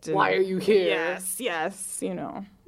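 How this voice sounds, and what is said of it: Put-on German accent. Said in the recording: “That German accent gets me every time.”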